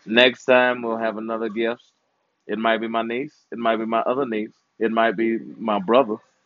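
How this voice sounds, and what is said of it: Strained, worn-out voice. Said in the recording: “Too bad my voice is gone.”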